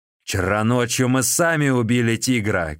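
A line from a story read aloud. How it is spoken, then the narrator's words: Shouting. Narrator (Russian): кричал Мао Джун И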